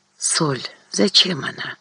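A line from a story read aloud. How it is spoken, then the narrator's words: Barely audible question. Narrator (Russian): чуть слышно спросила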